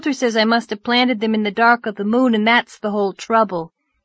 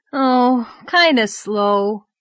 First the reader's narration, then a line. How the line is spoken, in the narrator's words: said Davy with a sigh